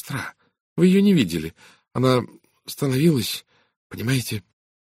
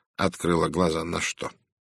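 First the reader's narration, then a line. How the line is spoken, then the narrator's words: Soft, sympathetic. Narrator (Russian): Голос Пуаро теперь звучал мягко, сочувственно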